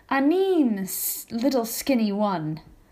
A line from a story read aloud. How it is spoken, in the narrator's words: growled